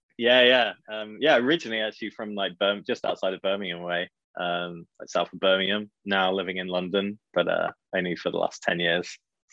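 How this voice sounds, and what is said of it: British UK accent. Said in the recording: “he's got that UK accent ... you're still holding on to the accent”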